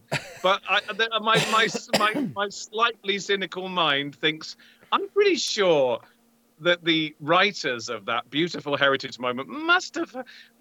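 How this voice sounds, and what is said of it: British-sounding accent. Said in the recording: “I'm from across the pond. You may have noticed by my accent.”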